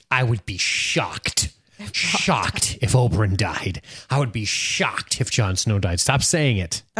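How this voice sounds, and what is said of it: Impression of co-host's voice. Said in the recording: “That's exactly how I sound too. Your impression is just spot on.”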